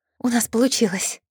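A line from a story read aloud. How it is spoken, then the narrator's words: Breathed out. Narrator (Russian): выдохнула Киро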